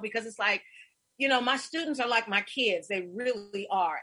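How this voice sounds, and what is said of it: Emotional, choked-up voice. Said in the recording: “I'm getting a little emotional”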